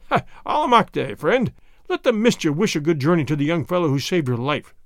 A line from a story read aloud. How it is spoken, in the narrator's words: Pietro Retief said with one of his hearty laughs